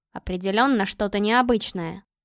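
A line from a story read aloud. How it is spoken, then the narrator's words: Mutter. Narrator (Russian): пробормотал он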